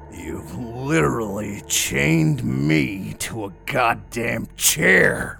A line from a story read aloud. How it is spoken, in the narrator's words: I roared